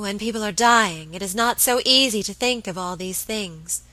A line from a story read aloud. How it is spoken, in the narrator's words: murmured my lady